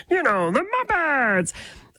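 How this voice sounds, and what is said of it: Kermit the Frog puppet voice. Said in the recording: “my impersonation of Kermit the Frog”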